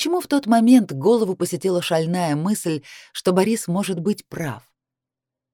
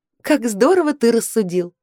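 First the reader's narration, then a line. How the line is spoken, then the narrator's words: Laughing reply. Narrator (Russian): смеясь, ответила я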